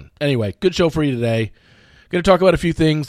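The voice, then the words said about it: Worn-out, strained voice. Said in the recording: “I think I probably sound a little bit worse today... my voice is a little bit shot... voice is going.”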